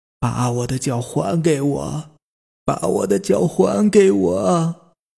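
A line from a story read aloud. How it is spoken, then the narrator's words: Hoarse shout, old woman. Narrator (Chinese): 奶奶 沙哑的喊着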